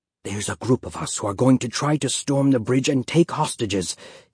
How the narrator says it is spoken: he whispered

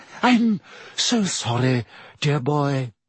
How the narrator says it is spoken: she said dreamily

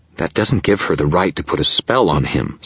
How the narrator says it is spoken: Susan snapped

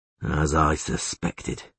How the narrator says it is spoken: he muttered

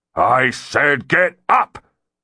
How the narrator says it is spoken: He roared again

